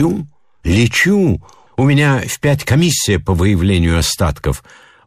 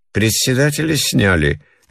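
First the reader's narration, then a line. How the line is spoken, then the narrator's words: Lazy question. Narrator (Russian): лениво спрашивала жена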